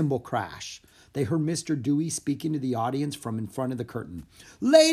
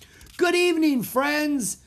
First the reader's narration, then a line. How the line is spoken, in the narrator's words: Jack shouted over the applause